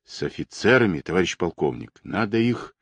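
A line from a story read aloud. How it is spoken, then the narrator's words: Whisper. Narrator (Russian): прошептал Алексей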